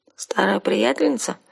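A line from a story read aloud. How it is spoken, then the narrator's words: Sleepy question. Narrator (Russian): сонно спросила я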